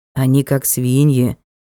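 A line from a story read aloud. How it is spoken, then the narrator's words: Quiet. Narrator (Russian): тихо сказал Ник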